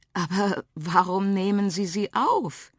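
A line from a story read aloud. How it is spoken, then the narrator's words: Wondering aloud. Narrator (German): wunderte sie sich laut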